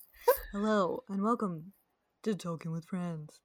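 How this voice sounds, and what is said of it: Newscaster-style radio host voice. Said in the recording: “Do I sound like a newscaster? ... my impersonation of the guy from Parks and Rec”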